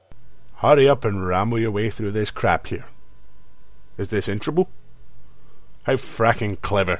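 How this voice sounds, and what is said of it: Character voice with regional accent. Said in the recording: “I don't know why my conscience has that accent. I've never even been to Cleveland.”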